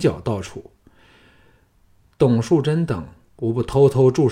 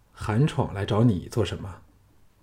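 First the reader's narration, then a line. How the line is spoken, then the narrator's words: Calm, flat. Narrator (Chinese): 淡淡的说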